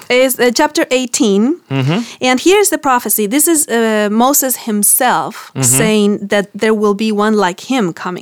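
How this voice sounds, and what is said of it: Argentinian accent. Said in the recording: “in my Argentinian accent, I can't get the book out”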